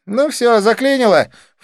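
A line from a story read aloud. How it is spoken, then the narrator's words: Snorted. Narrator (Russian): фыркнула Дива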